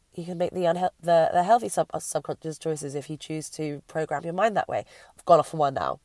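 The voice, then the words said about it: Strained, failing voice. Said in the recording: “my voice is starting to definitely go”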